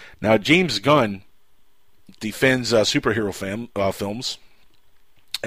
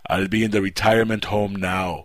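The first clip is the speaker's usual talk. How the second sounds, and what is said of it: Imitates another person's voice. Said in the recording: “Bad impression”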